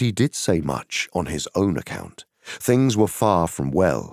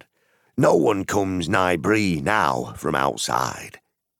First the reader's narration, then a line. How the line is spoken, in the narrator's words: he said